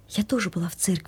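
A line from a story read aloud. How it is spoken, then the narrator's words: Quiet whisper. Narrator (Russian): сказала Соня шепотом, чтобы не мешать взрослым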